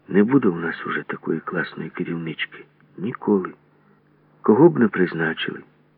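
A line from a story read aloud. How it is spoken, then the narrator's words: Trembling voice. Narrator (Ukrainian): серед загальної тиші Грибенючка тремтячим голосом промовила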